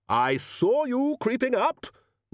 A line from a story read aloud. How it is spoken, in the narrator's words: roared the Arch-Chancellor